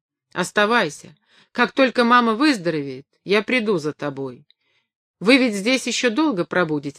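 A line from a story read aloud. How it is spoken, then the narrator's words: Plain. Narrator (Russian): спросил он меня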